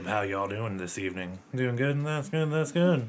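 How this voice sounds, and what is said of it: Put-on country accent. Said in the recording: “has started doing this really stressful country accent”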